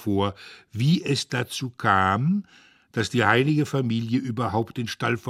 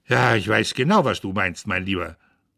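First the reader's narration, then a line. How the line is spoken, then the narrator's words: Grandmother, sharp. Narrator (German): sagt die Großmutter scharf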